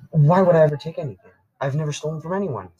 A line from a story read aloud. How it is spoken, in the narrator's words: said Caden in a panicked voice